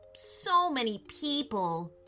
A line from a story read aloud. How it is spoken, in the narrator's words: groaned Andrew